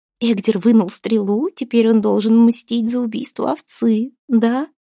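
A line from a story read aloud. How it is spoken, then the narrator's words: Giggling whisper. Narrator (Russian): хихикая шептала Аста на ухо матери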